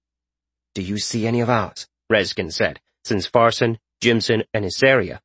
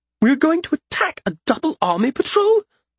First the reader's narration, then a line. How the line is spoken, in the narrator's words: Malcius exclaimed